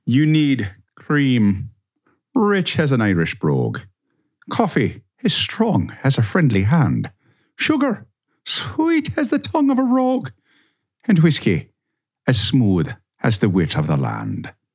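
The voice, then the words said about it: Put-on Irish accent. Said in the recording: “the accent, just cherry on top ... my favorite accent ... You've perfected it at this point.”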